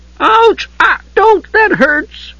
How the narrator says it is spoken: the Kender squealed

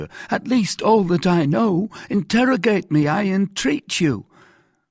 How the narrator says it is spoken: cried Bonacieux

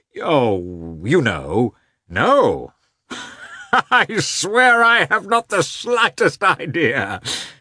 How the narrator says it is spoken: said Katavasov, laughing loudly

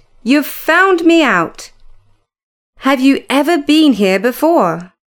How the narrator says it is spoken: she cried

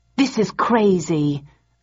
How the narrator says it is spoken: I said angrily

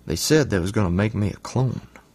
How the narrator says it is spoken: He whispered, all conspiratorial-like

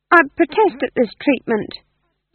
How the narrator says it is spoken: said the demon, his voice tinged with uncertainty

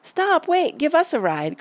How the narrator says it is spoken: cried Betsy and Tacey

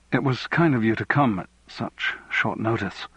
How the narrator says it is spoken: said nervously

